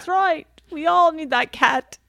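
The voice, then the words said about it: Bad put-on British accent. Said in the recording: “there's a terrible British accent for you”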